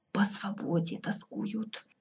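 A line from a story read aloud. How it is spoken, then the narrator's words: Barely audible report. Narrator (Russian): едва слышно доложил советник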